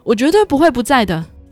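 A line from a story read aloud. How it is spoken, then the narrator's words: Excited shout. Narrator (Chinese): 女主激动地对女二的妈妈喊道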